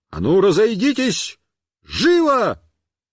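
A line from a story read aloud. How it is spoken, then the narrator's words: Shouted. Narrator (Russian): Я им крикнул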